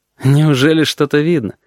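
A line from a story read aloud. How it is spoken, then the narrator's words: Lazy question. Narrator (Russian): лениво спросил Корнелий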